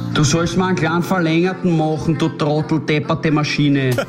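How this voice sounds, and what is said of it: Grumpy Austrian-accented character voice. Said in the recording (German): “Österreichisch ist ja nicht nur ein Dialekt ... vor allem das Grantige”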